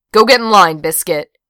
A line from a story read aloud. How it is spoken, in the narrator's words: barked